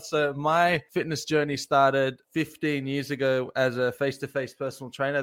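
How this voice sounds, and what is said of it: Australian accent. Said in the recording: “I am from Australia... a little bit of a different accent”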